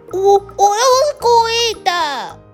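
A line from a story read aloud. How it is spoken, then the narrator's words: Anxious crying. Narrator (Chinese): 着急的呱呱哭了起来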